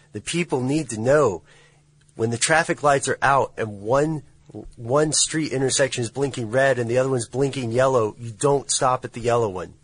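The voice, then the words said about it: Raised, yelling voice. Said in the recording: “I raised my voice ... stop yelling”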